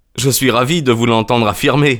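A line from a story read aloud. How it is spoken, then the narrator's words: Joyful tone. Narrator (French): dis-je d'un ton joyeux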